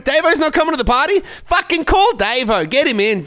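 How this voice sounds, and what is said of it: Exaggerated Australian accent. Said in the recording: “you really over-accentuate your accent”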